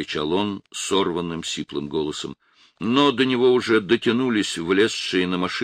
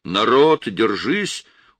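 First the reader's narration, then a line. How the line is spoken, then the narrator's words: Shouted hastily. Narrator (Russian): успел прокричать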